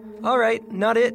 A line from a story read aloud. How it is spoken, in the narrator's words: shouted Emily